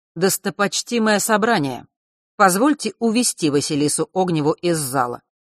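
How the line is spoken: Loud, formal. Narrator (Russian): громко произнес старший Лазарев

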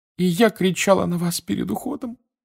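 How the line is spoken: Woman sobbing again. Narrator (Russian): вновь зарыдала миссис Уизли

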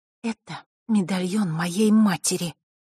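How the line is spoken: Through gritted teeth. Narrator (Russian): процедила девочка

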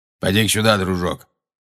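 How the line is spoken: Grumbling. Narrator (Russian): проворчал Грюм

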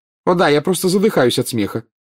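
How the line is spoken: Snapping sarcastically. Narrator (Russian): огрызнулась Гермиона

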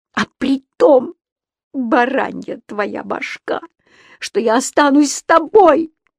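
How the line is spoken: Furious, desperate shout. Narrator (Russian): закричала Ронни вне себя от бешенства и отчаяния

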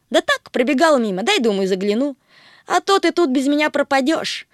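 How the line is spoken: Snort. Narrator (Russian): фыркнул Плутыш

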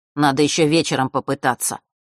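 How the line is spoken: Grumbling mutter. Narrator (Russian): пробурчал Фэш

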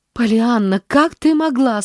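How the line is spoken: Moaning. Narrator (Russian): стонала она

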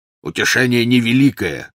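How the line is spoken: Growled. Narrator (Russian): прорычал Кингсли

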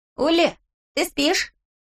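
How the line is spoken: Shout. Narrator (Russian): крикнул Босси

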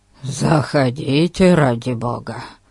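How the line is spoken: Grumble. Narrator (Russian): буркнул Ларкин

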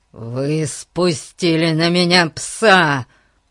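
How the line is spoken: Growl. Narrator (Russian): прорычал он

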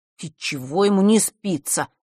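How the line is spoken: Grumbling. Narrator (Russian): пробурчал жаба

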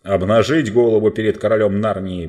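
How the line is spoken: Thunderous voice. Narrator (Russian): прогремел лорд Берн

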